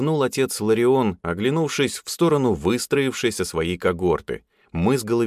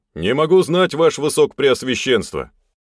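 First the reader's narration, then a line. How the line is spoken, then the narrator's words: Terse restrained reply. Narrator (Russian): Лаконично и сдержанно ответил я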